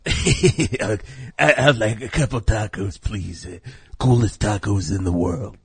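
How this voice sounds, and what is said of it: Imitates another person's voice. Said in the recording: “you can do an impression ... little Steve walks up”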